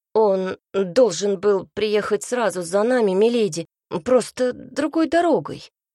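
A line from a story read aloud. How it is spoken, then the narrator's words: Reluctantly forced out. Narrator (Russian): наконец выдавил из себя Цинта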